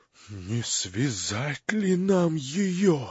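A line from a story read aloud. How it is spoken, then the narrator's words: Whisper. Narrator (Russian): шепнул генерал Птицыну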